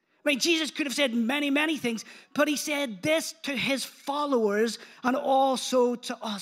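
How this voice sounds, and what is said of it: Speaks with a noticeable accent. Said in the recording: “You can say it even in my accent this morning if you want. Sounds a bit different when I say power”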